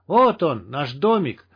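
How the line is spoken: Joyful triumphant yelling. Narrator (Russian): орали с берега радостные, словно пьяные от победы, голоса

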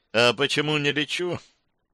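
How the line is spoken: Sad wry aside. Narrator (Russian): грустно усмехнулась и куда-то в сторону пояснила

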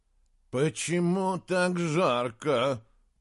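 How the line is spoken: Groaning. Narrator (Russian): простонал Джеремия

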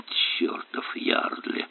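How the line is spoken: Muttering. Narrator (Russian): пробормотал Эллери

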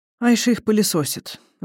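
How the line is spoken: Sighing. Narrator (Russian): вздохнул Алтунгирел

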